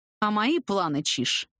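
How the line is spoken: Displeased growl. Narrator (Russian): прорычал недовольно

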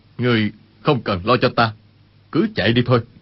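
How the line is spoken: Lowered voice. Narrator (Vietnamese): Y hạ giọng nói

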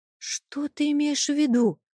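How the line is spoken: Terrified whisper. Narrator (Russian): испуганно прошептала я, чувствуя, как тело покрывается холодным потом от ужаса

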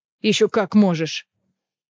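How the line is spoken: Growl. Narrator (Russian): прорычал Кассиан

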